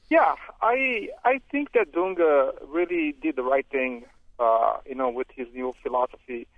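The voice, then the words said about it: Brazilian-accented English. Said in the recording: “I can't tell from your accent. Are you from Brazil?”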